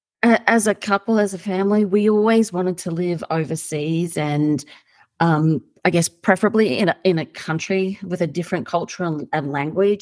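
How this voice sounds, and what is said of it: Australian accent. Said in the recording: “I'm Australian, you probably tell from the accent.”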